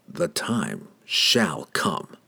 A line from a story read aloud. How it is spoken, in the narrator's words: Through gritted teeth, declared openly